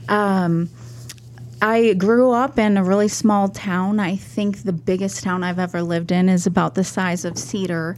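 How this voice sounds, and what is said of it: Slight Minnesota accent. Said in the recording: “I'm originally from Minnesota, so you'll hear the accent a little bit.”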